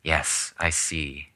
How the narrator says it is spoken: she answered slowly

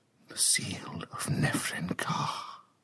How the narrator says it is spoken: whispered

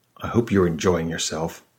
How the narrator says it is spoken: Elmer muttered

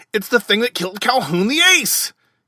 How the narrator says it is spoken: he almost shrieked

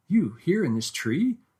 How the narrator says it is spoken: I gasped

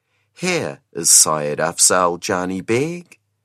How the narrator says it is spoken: she said softly

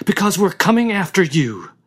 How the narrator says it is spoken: cried Jill

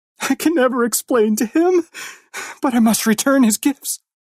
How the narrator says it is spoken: she cried

